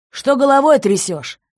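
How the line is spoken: Shouting. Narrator (Russian): закричал Алексуков

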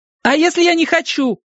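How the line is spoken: Very loud. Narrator (Russian): сказал я так громко, что люди на нас стали оглядываться

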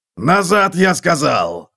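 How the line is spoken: Roaring. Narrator (Russian): взревел Готрек

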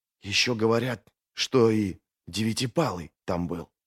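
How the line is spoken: Boy whispering. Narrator (Russian): прошептал мальчик

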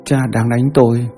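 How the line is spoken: Frightened childlike voice. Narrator (Vietnamese): Cô đáp bằng giọng trẻ thơ, đầy sợ sệt nói

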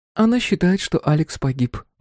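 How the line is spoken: Sad. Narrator (Russian): грустно сказала Лиза

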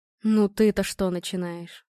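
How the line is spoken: Tired sigh. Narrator (Russian): Устало вздохнул Владимир

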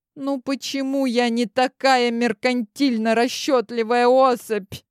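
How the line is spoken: Loud sobbing. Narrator (Russian): я во весь голос зарыдала

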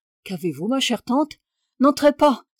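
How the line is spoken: Cry from behind screen. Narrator (French): s'écria-t-on derrière le paravent

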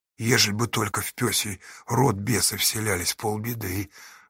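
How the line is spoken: Gloomy old man. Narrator (Russian): мрачно сказал старый и лысый бурлак

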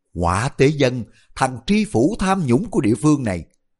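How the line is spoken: Through gritted teeth, near-shout. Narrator (Vietnamese): Phùng Lai nghiến răng nói lên như hét

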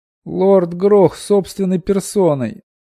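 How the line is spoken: Moaning. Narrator (Russian): простонал Пхимур

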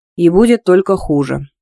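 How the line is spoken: Agreeing snort. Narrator (Russian): согласно хмыкнул Дмитрий

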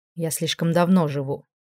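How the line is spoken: Plain. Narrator (Russian): сказал он

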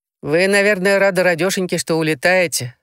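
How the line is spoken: Plain. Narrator (Russian): сказал он

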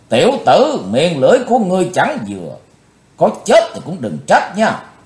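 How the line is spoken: Roaring. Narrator (Vietnamese): Bạch Phát Ma Cơ gầm thét

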